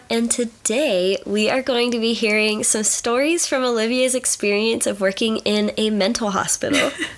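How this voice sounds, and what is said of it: Stuffy, congested voice. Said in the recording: “I have allergies. That's why I sound stuffy.”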